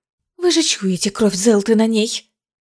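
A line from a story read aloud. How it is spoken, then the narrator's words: Hissing. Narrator (Russian): зашипела Искара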